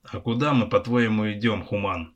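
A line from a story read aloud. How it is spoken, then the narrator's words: Snorting chuckle. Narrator (Russian): хмыкнул Косматый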